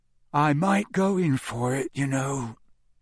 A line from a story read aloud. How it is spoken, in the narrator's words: Ron said sleepily through the darkness